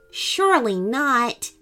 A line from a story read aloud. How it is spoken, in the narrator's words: Stella exclaimed